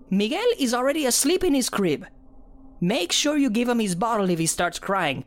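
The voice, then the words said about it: Thick Mexican accent. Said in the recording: “she said in a thick Mexican accent.”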